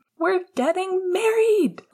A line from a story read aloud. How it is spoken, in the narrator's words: Lily shouted